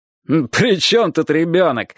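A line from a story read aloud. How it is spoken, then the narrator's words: Laughing loudly. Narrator (Russian): хохотал большой красивый охотник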